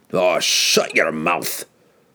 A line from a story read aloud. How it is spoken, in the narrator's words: snapped Bruner, his face flushed red with embarrassment